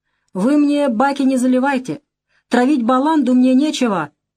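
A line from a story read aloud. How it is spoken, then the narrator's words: Yelling. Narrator (Russian): орал парень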